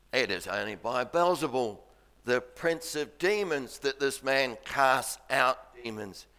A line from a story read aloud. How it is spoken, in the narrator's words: They mutter away